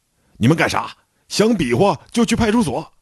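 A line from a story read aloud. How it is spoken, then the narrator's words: Sudden loud shout. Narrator (Chinese): 我赶紧大喊一声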